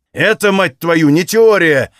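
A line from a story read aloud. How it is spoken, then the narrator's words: Barked. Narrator (Russian): рявкнул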